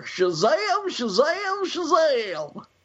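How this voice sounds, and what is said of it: Gomer Pyle impression. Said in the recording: “A little homage to our good friend Gomer Pyle there ... that was not a bad imitation ... the best Gomer Pyle imitation we've ever had on the show”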